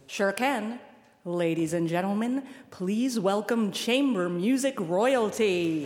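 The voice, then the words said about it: Showy announcer voice. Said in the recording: “put on your show business voice”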